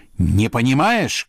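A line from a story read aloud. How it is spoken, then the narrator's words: Shouted. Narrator (Russian): кричал князь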